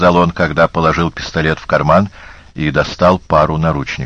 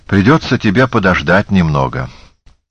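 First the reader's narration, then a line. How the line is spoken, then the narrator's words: Nearly normal tone. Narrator (Russian): сказала почти нормальным тоном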